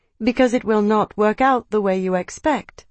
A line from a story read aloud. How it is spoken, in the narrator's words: she said calmly